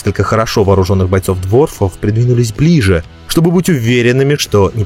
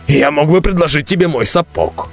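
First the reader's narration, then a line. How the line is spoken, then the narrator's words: Snapping retort. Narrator (Russian): огрызнулся Бреннер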